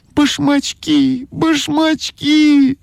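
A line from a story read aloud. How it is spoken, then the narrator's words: Shouting. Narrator (Russian): закричала ойка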